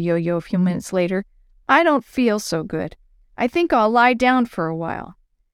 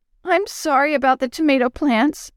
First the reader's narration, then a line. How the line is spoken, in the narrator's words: she cried